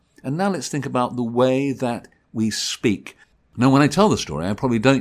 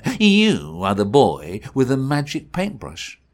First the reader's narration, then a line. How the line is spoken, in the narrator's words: sneered the emperor